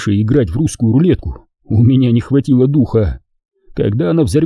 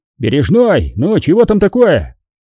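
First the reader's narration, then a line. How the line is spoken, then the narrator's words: Shout, company commander. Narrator (Russian): крикнул ротный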